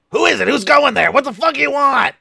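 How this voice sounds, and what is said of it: Goblin character voice. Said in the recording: “We love your goblin voice”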